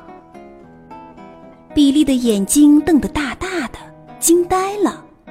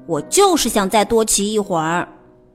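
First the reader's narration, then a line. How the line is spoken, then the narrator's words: Cold. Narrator (Chinese): 比利冷冷地说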